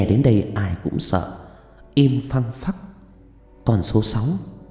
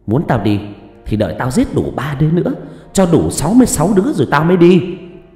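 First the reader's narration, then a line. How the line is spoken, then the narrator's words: Shrill yell. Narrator (Vietnamese): Nó hét lên choe choé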